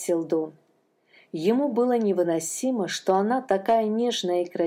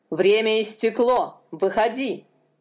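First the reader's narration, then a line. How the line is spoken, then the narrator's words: Jailer's growl. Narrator (Russian): прорычал тюремщик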